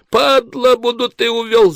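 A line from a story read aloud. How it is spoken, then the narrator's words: Man's shrill squeal. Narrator (Russian): завизжал блондин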